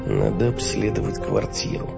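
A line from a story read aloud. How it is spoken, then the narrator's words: Muttering to himself. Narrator (Russian): пробормотал самому себе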